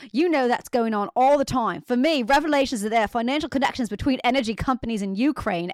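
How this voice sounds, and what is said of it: Put-on English accent. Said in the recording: “should I be reading this in an English accent? ... Definitely. ... I don't even know if that's what he sounds like.”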